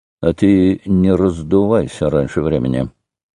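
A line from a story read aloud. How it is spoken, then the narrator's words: Through gritted teeth. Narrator (Russian): Петр Алексеевич ему сквозь зубы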